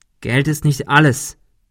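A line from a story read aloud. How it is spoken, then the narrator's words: Plain. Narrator (German): sagte Ben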